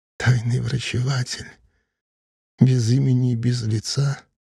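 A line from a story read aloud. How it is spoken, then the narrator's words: Sad, smiling. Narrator (Russian): грустно улыбнулась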